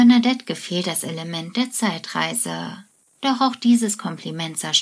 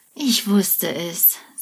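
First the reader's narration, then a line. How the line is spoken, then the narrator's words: Sighing. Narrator (German): seufzt er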